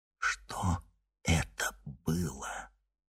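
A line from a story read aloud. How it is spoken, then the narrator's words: Whispering to himself. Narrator (Russian): шепотом спросил Никита у самого себя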